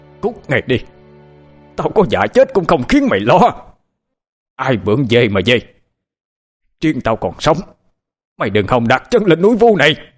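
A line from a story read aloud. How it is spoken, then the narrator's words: Loud scream. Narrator (Vietnamese): Huyền Ân thét lớn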